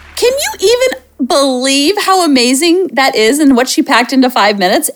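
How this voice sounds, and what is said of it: Voice rising high in pitch. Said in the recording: “my voice is getting so high”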